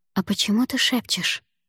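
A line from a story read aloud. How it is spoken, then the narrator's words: Quiet question. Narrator (Russian): так же тихо спросил Димка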